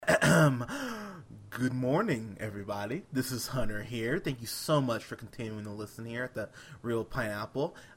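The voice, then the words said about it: Worn-out, hoarse voice. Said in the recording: “My voice is just shot. I'm getting over a sore throat.”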